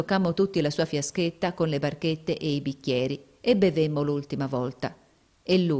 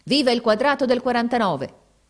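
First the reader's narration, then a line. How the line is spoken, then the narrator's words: Shouted while standing up. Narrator (Italian): gridò levandosi in piedi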